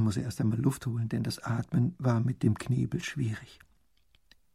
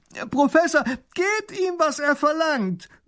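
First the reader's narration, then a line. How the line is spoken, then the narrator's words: Child calling out. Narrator (German): ruft der kleine Großherzog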